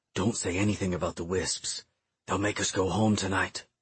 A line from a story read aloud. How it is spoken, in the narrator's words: He then whispered